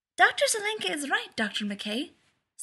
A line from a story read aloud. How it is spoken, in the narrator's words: said Miko, bouncing excitedly on her toes